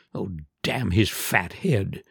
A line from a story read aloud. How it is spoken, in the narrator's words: he repeated fervently